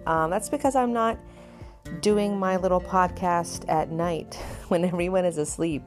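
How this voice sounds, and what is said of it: More upbeat voice. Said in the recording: “my voice is a little more upbeat this time.”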